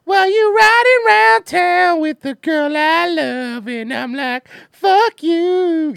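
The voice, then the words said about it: Imitates another person's singing voice. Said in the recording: “I'm the world's tallest CeeLo impersonator”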